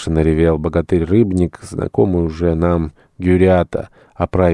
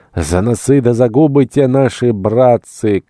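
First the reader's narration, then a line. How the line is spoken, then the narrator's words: Puny fellow shouting. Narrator (Russian): кричал тщедушный пидблянник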